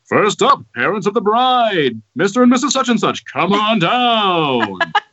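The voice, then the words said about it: Game show announcer voice. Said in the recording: “my best game show announcer voice”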